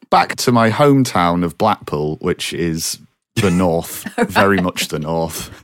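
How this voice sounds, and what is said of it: Northern English accent. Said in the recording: “I should have known from that accent.”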